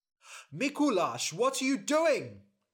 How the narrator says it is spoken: shouted his father

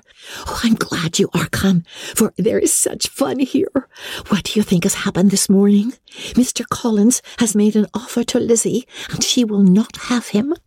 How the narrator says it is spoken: cried in a half-whisper

